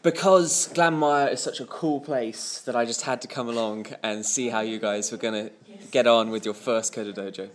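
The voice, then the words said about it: Mixed English and Irish accent. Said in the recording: “that accent? ... From Hampshire in England, and 6 years living in Kerry, and then a year or so in Cork. So it's a bit of a mixture going on there.”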